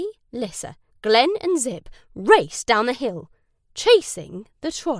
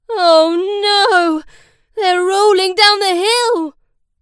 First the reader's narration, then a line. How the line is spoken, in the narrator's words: wailed Ollie